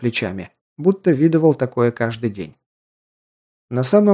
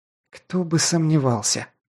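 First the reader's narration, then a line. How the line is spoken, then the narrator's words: Angry hiss, young woman. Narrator (Russian): зло прошипела девушка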